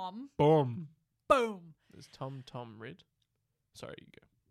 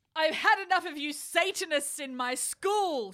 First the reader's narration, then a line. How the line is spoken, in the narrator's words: shouted Dumbledore spuriously